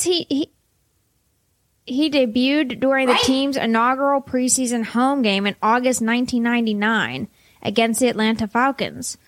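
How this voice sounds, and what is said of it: Pittsburgh accent. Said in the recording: “hard to say for you. Your Pittsburgh accent. ... It's the vowels with the R's and the L's.”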